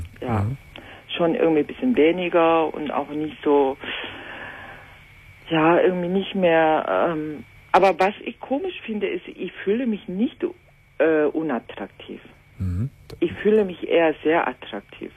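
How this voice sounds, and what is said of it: Korean-accented German. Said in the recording (German): “du hast so einen wunderbaren Akzent ... Aus Korea? ... vom Akzent her konnte ich es gar nicht zuordnen ... die hat auch so einen ähnlichen Akzent”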